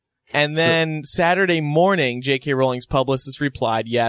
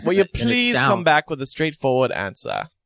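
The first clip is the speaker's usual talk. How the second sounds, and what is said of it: Put-on British accent. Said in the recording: “To say that in a British accent, though ... It just sounds more authentic that way.”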